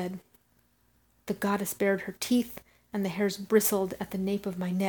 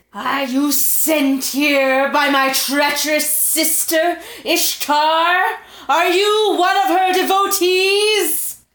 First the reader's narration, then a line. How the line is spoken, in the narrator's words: She said, snarling